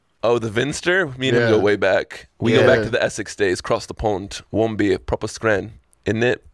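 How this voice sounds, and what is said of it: Poorly done put-on accent. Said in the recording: “That was a pretty terrible accent”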